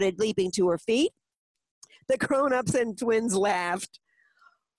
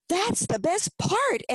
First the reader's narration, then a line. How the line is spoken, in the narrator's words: Emily exclaimed